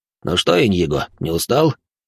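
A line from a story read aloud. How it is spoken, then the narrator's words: Drunken inquiring voice. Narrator (Russian): хмельным голосом поинтересовался он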